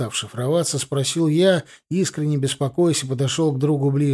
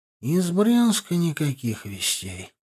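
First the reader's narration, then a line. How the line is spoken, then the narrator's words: Overly calm reply. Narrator (Russian): по-прежнему слишком спокойно ответил он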